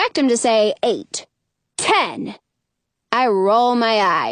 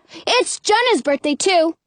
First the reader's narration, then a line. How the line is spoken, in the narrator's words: blurt